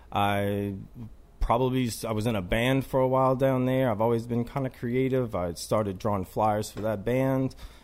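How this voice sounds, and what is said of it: New Orleans accent. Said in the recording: “people might already know just from some of my accent. From New Orleans.”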